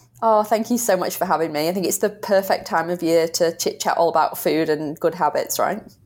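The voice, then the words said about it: British accent. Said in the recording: “I love your accent ... it's been 12 years since I was in the UK ... I love, love, love your accent”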